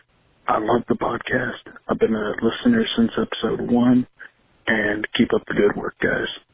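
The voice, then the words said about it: Speaking very quietly. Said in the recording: “I'm talking really loud or really quiet because I'm sleeping next to my wife and I'm trying not to wake her up.”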